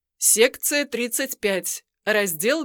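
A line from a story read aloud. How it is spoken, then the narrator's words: Stern. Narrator (Russian): произнеся также строго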